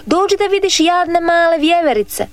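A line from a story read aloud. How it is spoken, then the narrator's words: Shouting boy. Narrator (Croatian): viknu dječak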